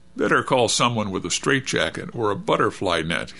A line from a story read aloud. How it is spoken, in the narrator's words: he said, quaking with laughter